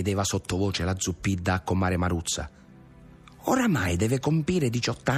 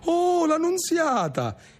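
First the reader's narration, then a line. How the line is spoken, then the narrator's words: Neighbor women exclaiming. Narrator (Italian): esclamarono le vicine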